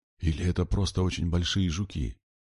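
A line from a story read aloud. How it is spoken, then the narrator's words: Quiet. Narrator (Russian): тихонько сказал Макс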